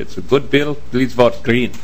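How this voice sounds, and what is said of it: Croatian or Slavic accent impression. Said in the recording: “my best Croatian or Slavic impression”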